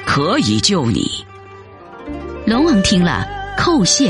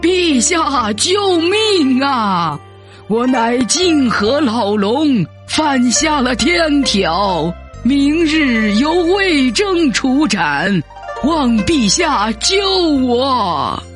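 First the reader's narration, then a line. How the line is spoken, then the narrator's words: Dragon king shouting pleadingly. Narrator (Chinese): 泾河龙王 大声叫道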